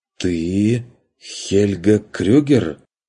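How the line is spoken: Openly surprised, strained. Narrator (Russian): Даже не пытаясь скрыть удивление, выдавил он

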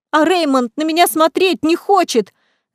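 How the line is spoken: Shouting, then crying. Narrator (Russian): закричала Мелисса и тут же заплакала

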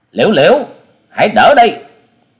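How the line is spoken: Shouted. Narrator (Vietnamese): Lòng với tiếng quát

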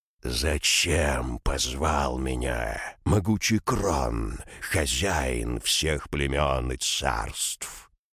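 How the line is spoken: Angry monstrous growl. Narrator (Russian): Угус, злобно зыркнув на повелителя, прорычал

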